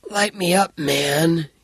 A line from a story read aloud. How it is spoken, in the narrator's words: gasped